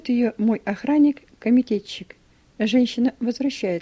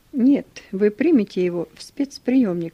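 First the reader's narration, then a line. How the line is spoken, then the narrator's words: Plain. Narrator (Russian): говорит комитетчик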